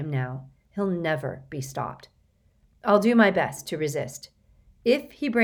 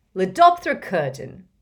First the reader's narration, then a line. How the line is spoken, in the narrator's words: he roared in delight